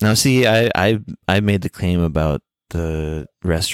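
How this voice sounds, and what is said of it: Usual voice. Nothing is said of it.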